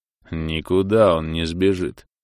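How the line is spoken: Deep bass voice. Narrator (Russian): пробасил Зарон

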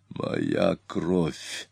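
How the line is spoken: Hoarse. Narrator (Russian): хрипло произнес Атилла

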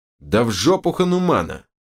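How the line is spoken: Snapping retort. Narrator (Russian): Огрызнулся Берс

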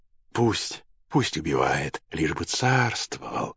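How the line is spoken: Whispered. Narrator (Russian): шептала в ответ прекрасная женщина

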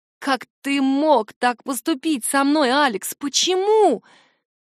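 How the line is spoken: Loud sobbing. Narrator (Russian): Я громко всхлипываю

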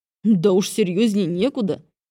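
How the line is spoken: Amused snort. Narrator (Russian): хмыкнул мужчина

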